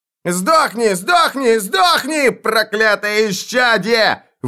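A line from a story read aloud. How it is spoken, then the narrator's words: Screaming. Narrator (Russian): вопил он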